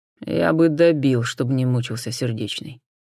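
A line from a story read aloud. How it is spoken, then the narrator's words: Grim admission. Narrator (Russian): мрачно признался сержант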